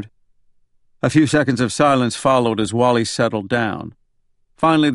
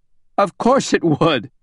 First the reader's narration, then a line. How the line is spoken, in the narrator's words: Wally said with a belly laugh